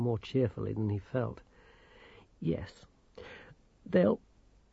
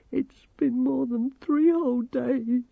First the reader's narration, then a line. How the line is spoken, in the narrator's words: sobbed Grimmer